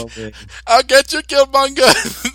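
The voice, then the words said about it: Put-on Jamaican accent. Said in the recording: “has like a Jamaican accent ... it's like West Indian”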